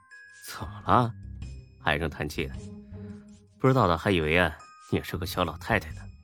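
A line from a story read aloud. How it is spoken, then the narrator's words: Pouting sigh. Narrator (Chinese): 夏佳琪把嘴一嘟，叹了口气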